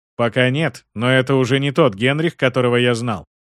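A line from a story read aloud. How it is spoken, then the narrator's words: Plain. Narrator (Russian): ответил Гаспар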